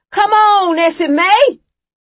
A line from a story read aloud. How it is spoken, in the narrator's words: yelled Ed